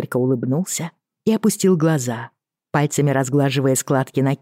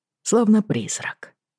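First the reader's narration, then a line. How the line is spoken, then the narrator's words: Quiet. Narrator (Russian): тихо добавил Йен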